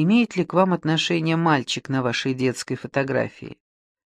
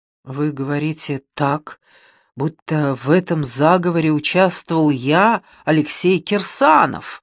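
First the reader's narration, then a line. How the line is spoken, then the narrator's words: Frightened exclamation. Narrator (Russian): испуганно воскликнул режиссер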